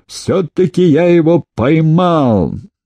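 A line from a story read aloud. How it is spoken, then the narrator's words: Loud exclamation. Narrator (Russian): во все горло воскликнул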